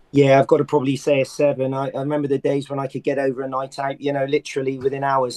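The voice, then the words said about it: Hoarse, worn-out voice. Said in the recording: “you can hear the voice. It's not this sexy voice I'm trying to put on... shouting at Wigan and I think shouting in those nightclubs in Liverpool did for me”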